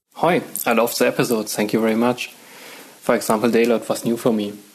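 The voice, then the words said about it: Heavy German accent. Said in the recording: “does have a very heavy German accent”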